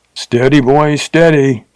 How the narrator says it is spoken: cried the Texan

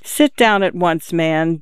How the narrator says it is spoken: Jenny said

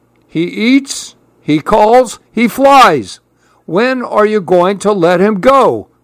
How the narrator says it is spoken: grumbled Grandpa

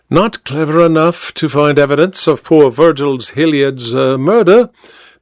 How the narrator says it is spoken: the detective replied blandly

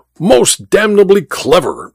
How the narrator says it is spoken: exclaimed the Duke

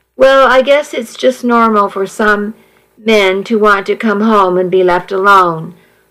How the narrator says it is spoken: I sighed

